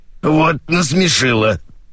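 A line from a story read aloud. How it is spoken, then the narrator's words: Hoarse wheeze. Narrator (Russian): Просипела она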